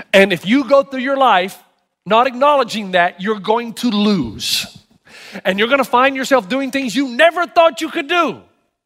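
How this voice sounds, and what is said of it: Funny accent. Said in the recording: “has a funny accent”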